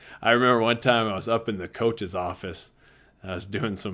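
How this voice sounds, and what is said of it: Usual voice. Nothing is said of it.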